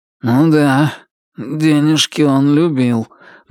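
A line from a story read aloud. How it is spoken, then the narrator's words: Gloomy. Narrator (Russian): мрачно заметил Туз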